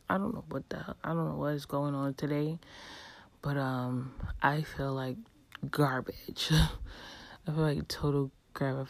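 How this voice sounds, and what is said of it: Slightly hoarse voice. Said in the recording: “my voice sounds a little bit hoarse.”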